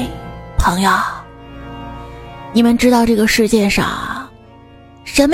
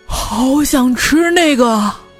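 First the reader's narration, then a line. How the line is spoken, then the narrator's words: Loud. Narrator (Chinese): 你的朋友大声说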